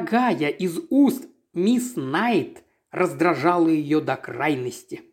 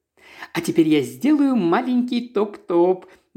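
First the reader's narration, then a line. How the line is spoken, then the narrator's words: Cheerful report. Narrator (Russian): бодрым голосом доложила мисс Найт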